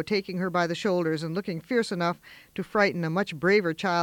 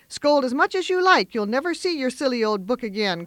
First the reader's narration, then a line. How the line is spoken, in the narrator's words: cried Amy, getting excited in her turn